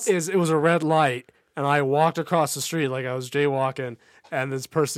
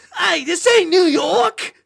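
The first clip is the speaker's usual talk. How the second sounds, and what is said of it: Heavy New York accent. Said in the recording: “a heavy New York accent”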